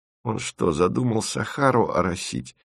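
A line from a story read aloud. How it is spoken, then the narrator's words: Muttered. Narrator (Russian): пробормотал Тимофеев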